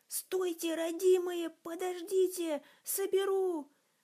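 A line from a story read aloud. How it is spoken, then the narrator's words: Startled shout. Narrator (Russian): встрепенувшись, крикнула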